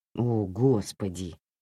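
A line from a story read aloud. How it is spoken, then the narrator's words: Muttered. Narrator (Russian): пробормотал Лиам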